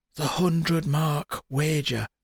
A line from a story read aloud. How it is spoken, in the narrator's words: she whispered